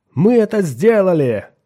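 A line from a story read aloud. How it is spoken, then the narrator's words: Shouted, several voices. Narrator (Russian): закричали они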